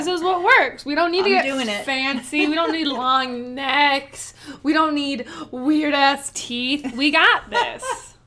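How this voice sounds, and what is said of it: Playful primitive-mammal character voice. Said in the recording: “my primitive mammal impression.”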